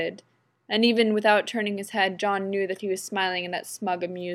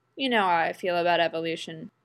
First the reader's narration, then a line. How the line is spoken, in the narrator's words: John replied sleepily